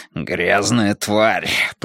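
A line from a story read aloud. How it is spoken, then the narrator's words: Growled. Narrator (Russian): прорычал он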